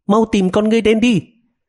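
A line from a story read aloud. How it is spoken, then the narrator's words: Hurried shouting into phone. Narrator (Vietnamese): Masako vội vàng hét vào điện thoại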